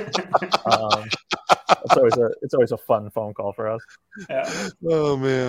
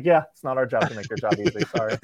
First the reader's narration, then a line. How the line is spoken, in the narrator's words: laugh at them